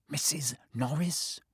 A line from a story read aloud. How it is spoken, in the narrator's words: breathed Ron